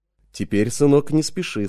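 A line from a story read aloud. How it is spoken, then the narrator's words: Plain. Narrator (Russian): сказал отец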